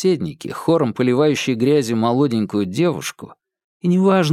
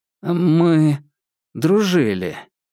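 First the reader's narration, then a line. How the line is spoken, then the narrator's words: Forced out. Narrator (Russian): выдавил из себя Наиль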